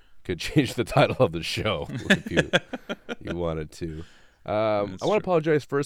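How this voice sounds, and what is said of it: Sick, slightly off voice. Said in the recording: “My voice is a little bit off. I've been struggling with a post-dry cough from the flu... I don't sound normal”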